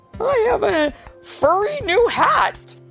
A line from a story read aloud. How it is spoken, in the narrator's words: giggled Officer Carl